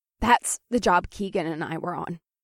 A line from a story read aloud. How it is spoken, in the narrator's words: she said, and her voice sounded strained, tearful, but trying not to be